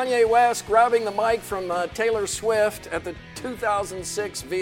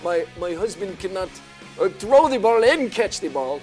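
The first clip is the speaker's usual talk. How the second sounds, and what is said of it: Attempted Brazilian accent. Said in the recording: “I don't know if that's a Brazilian accent. ... I'm not sure what that accent was.”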